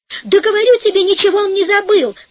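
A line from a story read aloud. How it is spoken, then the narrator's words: Shouting woman. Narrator (Russian): закричала жена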